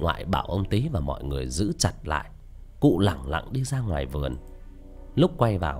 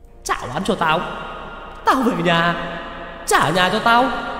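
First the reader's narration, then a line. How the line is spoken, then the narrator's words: Old woman screaming while running. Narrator (Vietnamese): bà vừa chạy vừa hét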